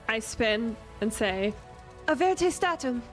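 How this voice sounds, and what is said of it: Put-on British accent. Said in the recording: “I said it in a British accent”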